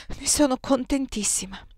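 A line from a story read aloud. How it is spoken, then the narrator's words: Reply, suppressing a sigh. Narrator (Italian): risposi, inghiottendo un sospiro traditore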